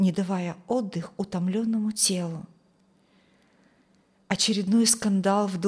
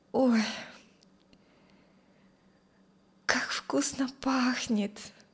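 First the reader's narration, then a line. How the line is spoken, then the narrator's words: Sleepy drawl. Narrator (Russian): сонным голосом, протянула Юлия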